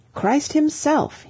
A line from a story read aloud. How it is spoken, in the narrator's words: he cried